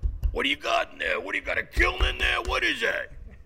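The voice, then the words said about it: Imitates a landlord's voice. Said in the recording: “Can I do an impression of your landlord discovering you have a kiln in your apartment? Here's my impression.”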